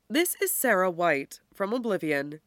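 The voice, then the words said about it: Woman's voice, slight British accent. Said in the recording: “It's a woman's voice, with a hint of a British accent.”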